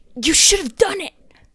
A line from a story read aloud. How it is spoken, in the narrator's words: Mitch joins in from across the fire pit and basically whisper yells